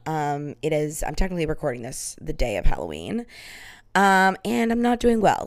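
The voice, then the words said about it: Heavy vocal fry, worn voice. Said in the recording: “I am violently hungover right now... I bet my vocal fry is out of control. I was dancing, I was singing, I was yelling”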